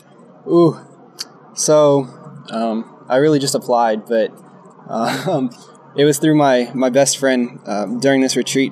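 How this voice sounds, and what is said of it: Texan American accent. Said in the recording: “what's that accent? ... I'm from Texas, from Houston.”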